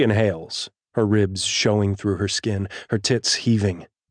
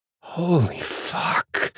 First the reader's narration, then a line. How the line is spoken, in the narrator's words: she hisses